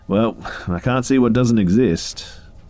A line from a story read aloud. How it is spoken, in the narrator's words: said, laughing back